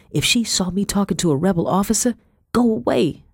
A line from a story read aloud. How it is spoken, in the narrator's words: muttered